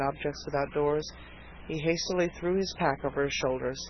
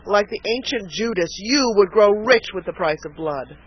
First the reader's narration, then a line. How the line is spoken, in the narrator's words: cried Harvey bitterly